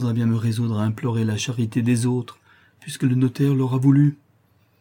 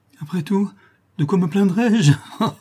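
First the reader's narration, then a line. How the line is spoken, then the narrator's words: Sinister laughing exclamation. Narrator (French): s'écria-t-elle avec un éclat de rire sinistre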